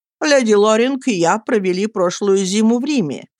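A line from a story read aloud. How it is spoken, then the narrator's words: Plain. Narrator (Russian): сказал он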